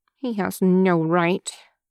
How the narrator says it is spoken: she grumbles

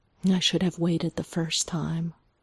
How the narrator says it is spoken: Nate whispers, low and sad

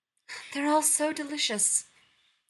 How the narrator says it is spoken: Nero sighs theatrically

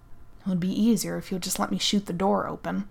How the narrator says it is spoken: Juno muttered

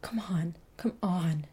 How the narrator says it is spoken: Duck begged, nervously

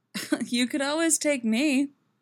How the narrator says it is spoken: she laughs

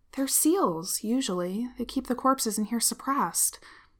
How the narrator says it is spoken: he mutters

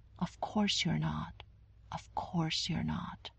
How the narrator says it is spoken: Prue sighed and said softly

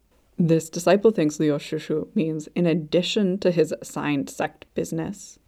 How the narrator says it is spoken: Luo Bingha muttered

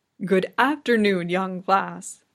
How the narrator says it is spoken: he booms

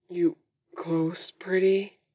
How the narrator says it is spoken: gasps between heavy breaths

